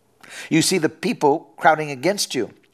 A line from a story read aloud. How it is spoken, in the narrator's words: his disciples answered